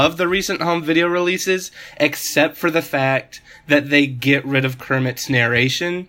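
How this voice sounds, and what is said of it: Usual voice. Nothing is said of it.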